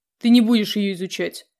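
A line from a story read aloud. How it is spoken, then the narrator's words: Irritated reply. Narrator (Russian): раздраженно ответил деспот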